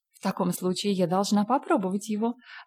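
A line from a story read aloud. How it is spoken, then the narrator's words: Laughing. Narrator (Russian): рассмеялась миссис Аллан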